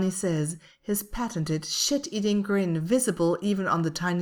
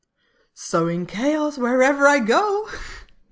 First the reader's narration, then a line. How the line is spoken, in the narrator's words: Nita responds, one of those same giggles slipping out at the end of her words